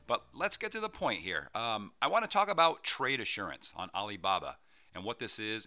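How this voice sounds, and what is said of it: Slightly raspy, odd-sounding voice. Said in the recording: “my voice sounds a little weird... I feel something going on there in the throat, a little raspy”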